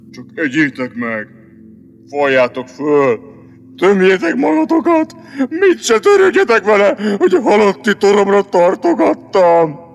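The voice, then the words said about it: Gloomy, sepulchral voice. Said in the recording (Hungarian): “Mondta síri hangon”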